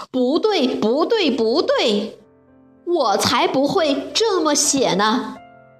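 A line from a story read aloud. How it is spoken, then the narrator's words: Lion roaring. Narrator (Chinese): 狮子大吼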